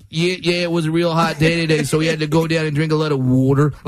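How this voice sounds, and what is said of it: Imitated Philadelphia accent. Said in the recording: “I love the Philadelphia accent. The Philadelphia accent, to me, it just seems like you have a record player going on in your head ... Then certain words happen. And you're like, there it is ... all of a sudden, someone put their hand on the record. And it just stopped.”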